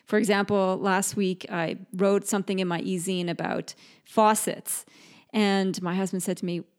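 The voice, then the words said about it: Mixed British, Canadian, Australian accent. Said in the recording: “I am British-born, Canadian-raised, and Aussie-naturalized, so my expressions and my accent can sometimes be a little funky”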